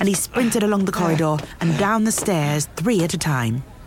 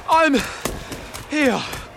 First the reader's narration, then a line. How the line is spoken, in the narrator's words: Harry panted